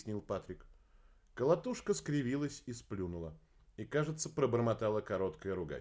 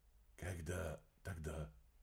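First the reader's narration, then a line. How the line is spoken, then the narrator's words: Muffled question. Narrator (Russian): глухо спросил эрсиец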